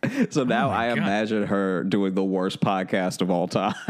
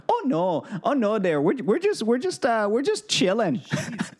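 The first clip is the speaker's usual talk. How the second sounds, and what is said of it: Small Minnesotan woman voice. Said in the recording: “I was nervous that was your Marc Maron impression... you turned him into this small Minnesotan woman”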